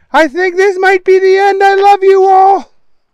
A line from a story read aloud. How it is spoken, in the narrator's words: Henry yelled